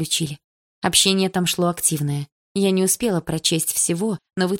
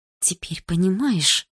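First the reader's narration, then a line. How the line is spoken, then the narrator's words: Whispered. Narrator (Russian): прошептала Дилара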